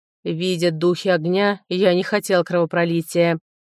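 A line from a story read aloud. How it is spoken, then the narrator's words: Angry growl. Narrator (Russian): злобно рыкнул Страунг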